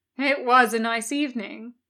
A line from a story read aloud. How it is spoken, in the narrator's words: Crowley smiled wearily